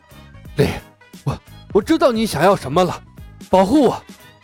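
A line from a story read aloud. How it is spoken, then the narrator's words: Breathless. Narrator (Chinese): 索尔……气喘吁吁的说道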